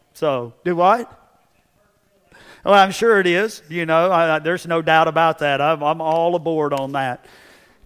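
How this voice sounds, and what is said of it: Southern Texas drawl. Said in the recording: “my southern, southeastern Texas drawl”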